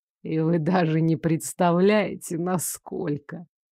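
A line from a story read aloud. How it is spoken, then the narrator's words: Soft chilling laugh. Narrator (Russian): Мужчина негромко рассмеялся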